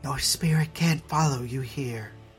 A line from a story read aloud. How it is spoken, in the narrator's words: Margaret said softly